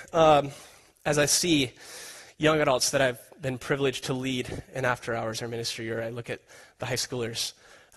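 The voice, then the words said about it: Emotional, choked-up voice. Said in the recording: “I'm getting emotional already.”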